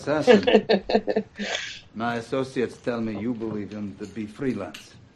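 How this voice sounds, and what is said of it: Weak put-on Russian accent. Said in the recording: “Is he doing a good Russian accent? ... No, of course not.”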